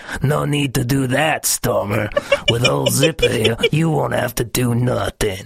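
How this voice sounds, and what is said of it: Strained cartoon character voice. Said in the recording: “I'm losing my voice... I really sound like Zipper... My voice kind of feels wrecked”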